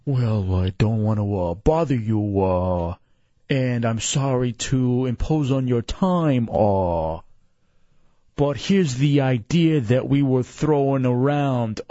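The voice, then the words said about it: Imitates another person's voice. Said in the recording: “doing a Chunks impression.”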